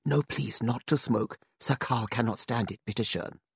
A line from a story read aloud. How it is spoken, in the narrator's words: a flunky would whisper